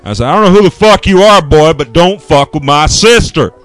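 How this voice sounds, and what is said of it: Southern accent. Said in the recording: “In the southern accent ... my southern accent comes up”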